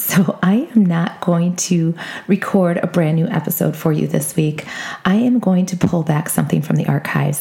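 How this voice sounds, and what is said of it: Weak, sick-sounding voice. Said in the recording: “I am under the weather... My voice is not here”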